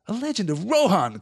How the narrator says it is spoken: cried Legolas

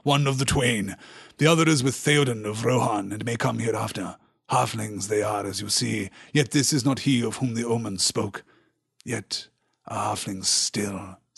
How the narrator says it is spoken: said Denethor grimly

